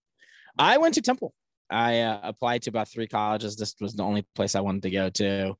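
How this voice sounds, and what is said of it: Philadelphia accent. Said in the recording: “you immediately picked up the Philadelphia accent. For better or for worse, you started saying water.”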